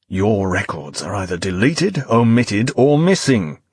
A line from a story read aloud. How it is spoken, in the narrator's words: growled Finch, voice rising, patience finally exhausted